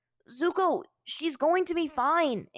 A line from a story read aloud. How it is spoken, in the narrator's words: Aang yelled over him